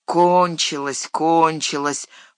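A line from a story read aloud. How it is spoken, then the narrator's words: Grumbling. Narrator (Russian): проворчал Сэм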